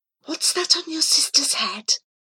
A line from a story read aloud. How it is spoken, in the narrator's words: the girl in front of me whispers